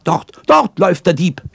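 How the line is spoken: Shouted to crowd. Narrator (German): schrie sie den Leuten zu

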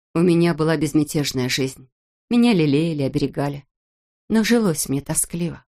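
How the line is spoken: Calm. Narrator (Russian): спокойно сказала она

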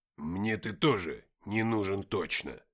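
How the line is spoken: Gruff mutter. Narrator (Russian): буркнул Никита

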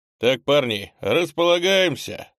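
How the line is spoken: Loud address. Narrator (Russian): громко обратился

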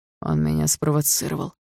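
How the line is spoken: Through gritted teeth. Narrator (Russian): сквозь зубы сказал Барс

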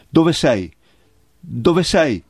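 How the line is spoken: Trembling shout. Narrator (Italian): gridò con voce tremante

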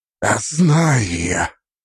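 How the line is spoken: Weary exhale, fading anger. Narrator (Russian): Устало выдохнул первый, и его ярость, казалось, на мгновение угасла, сменившись тяжелой, изматывающей усталостью

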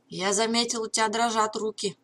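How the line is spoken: Deep voice, mock-serious. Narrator (Russian): пробасил Митч с притворной серьезностью

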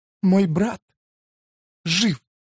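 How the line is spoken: Sobbing. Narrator (Russian): прорыдала она

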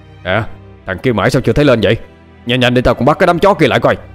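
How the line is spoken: Shout. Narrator (Vietnamese): Bình quát lên

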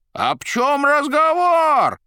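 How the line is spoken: Roared. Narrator (Russian): взревел Коровьев

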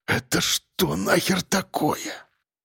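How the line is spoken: Frightened mutter. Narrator (Russian): Пробормотал участковый, чувствуя, как его прошиб холодный пот

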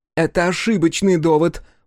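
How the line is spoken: Shouting. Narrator (Russian): выкрикнула Дзоми

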